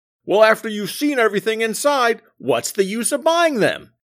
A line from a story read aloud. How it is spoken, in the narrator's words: The Sarge barked back